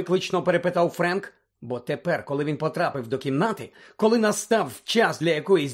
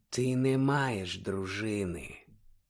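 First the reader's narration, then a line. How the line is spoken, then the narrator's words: Very quiet, cold objection. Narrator (Ukrainian): зовсім тихо заперечив холодний голос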